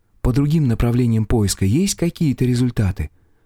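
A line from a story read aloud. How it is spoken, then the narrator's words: Sighing. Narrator (Russian): Поярко вздохнул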